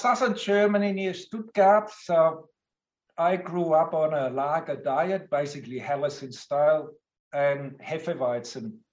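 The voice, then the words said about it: German accent. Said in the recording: “I hail from Germany, as you rightly guessed. And because of my lovely accent”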